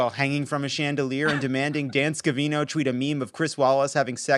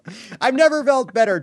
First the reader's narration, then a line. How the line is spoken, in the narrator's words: Trump shouted